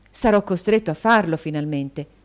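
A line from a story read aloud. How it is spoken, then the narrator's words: Plain. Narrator (Italian): disse Nicola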